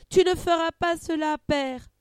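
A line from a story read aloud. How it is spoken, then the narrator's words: Screaming. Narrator (French): hurle Cassandre en se battant bec et ongles pour échapper à la poigne des gardiens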